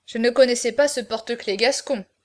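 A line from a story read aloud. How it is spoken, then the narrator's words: Grumbling jailer. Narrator (French): grommela le guichetier des gardes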